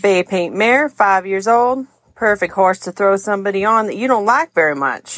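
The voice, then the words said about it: Deliberately bad put-on Texas accent. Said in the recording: “I'll try my best at a bad Texas accent”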